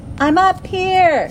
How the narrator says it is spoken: shouted back

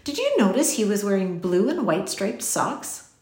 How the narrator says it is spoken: Ben laughed

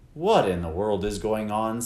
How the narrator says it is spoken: said her father

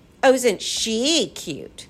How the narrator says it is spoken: the creatures simpered and sneered

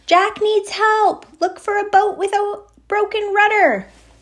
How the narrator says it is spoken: shout

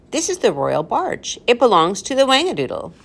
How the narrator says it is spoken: the professor exclaimed

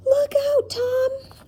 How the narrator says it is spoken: screamed with fear

